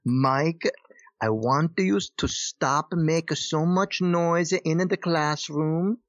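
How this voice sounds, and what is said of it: Heavy Italian accent imitation. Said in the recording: “he was very Italian... He was like right from Italy. So he had a very heavy Italian... accent.”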